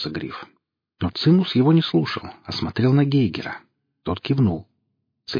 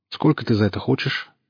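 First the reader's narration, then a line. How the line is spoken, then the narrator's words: Businesslike question. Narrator (Russian): спросил своим обычным деловым тоном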